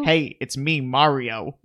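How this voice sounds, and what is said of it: Put-on New Jersey Italian Mario accent. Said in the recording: “accent ... I could do that act, that like New Jersey Italian act”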